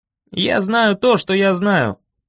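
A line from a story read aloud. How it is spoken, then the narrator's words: Grumbling mutter. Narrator (Russian): пробурчал я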